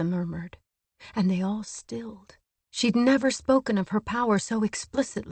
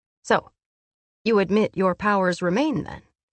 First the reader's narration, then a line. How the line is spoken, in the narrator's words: Amryn said dryly